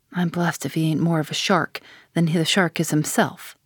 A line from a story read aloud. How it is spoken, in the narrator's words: muttered the old man